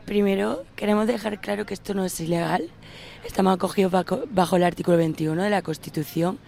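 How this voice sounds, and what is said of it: Hoarse, deep raspy voice. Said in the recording (Spanish): “está un poco afónica ... es una voz de ultratumba.”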